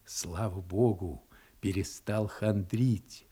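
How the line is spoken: Whisper. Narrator (Russian): шептал он своей супруге

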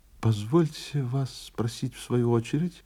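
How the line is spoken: Timid cough. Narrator (Russian): робко закашлял визави

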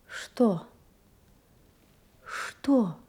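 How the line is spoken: Frightened, plaintive woman. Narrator (Russian): испуганно, жалобно спросила она

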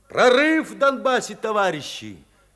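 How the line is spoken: Alarmed forceful shout. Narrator (Russian): Пащенко еще раз тревожно и с силой крикнул

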